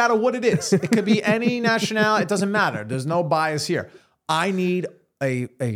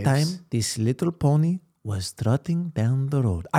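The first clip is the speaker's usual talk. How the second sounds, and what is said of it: Slightly Mexican-sounding put-on accent. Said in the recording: “That was like Mexican a little bit.”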